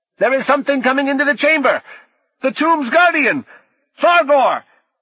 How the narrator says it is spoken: Fredericks, as Piflet the thief, shouting

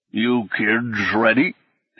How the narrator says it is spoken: asked, slurring and crackling like an ancient recording

